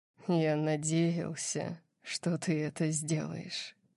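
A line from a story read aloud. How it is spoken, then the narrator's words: Quiet. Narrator (Russian): сказал он тихим голосом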